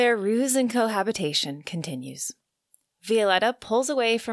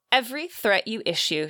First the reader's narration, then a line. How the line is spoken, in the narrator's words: said